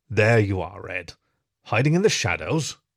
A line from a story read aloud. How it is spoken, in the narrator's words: asked with a chuckle